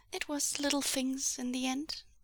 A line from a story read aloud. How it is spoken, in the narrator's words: Huaisang murmured